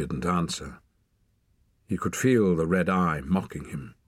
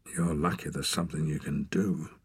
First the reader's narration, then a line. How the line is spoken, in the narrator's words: muttered Torak